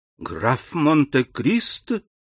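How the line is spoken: Exclaiming. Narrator (Russian): воскликнула она

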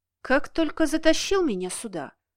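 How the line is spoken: Absent-minded muttering aloud. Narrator (Russian): пробормотала Кира, не заметив, что сделала это вслух

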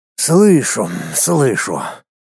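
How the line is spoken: Calm, quiet. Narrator (Russian): явно успокоившись, тихо произнес маг

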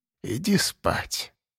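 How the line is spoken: Old woman, barely audible. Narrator (Russian): повторила баба Марфа едва слышно

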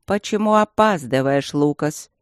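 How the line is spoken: Displeased grumble. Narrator (Russian): проворчал король, недовольно

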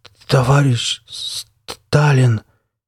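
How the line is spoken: Trembling, strained male voice. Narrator (Russian): с дрожью в голосе выдавил мужчина

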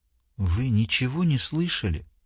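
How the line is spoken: Barely audible question. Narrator (Russian): спросила едва слышно

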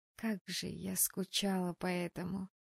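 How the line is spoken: Mumble. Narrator (Russian): пробормотала я

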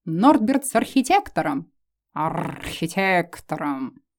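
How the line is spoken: Growl. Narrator (Russian): зарычала

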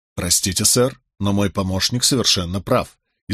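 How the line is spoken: Authoritative tone. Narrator (Russian): изрек я непререкаемым тоном

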